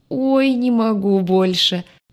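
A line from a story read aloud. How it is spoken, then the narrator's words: Groan. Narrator (Russian): Парень застонал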